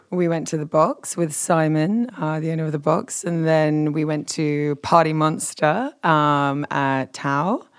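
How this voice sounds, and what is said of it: Deep radio voice, slightly worn. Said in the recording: “Listen to that radio voice. It's such a good voice... a voice for radio... why does your voice sound a little bit like you've been partying?”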